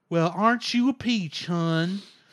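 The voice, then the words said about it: Imitated Southern hillbilly accent. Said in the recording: “she talked like a hillbilly redneck in the English dub ... I'm kind of doing the Osaka accent. ... It's not exact, or the accent of the character Osaka.”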